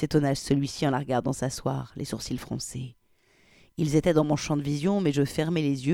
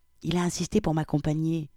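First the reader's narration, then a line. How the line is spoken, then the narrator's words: Sighed. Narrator (French): soupira-t-elle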